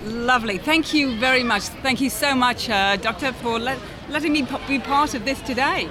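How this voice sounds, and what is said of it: British accent. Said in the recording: “that accent by itself is the price of admission alone ... Is that a British accent?”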